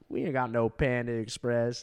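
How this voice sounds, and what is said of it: Put-on Southern accent. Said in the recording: “I don't want to do a southern accent”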